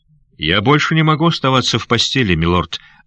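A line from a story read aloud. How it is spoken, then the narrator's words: Plain. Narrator (Russian): ответил Сандакан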